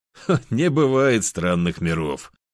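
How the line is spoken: Laughing. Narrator (Russian): рассмеялся я

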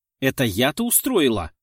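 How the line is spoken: Indignant. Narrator (Russian): возмутилась

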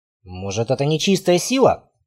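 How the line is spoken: Muttered. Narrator (Russian): пробормотал Рейнар, принявший его обличье

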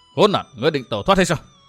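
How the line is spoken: Loud shout. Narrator (Vietnamese): Vu Tư Minh quát lớn

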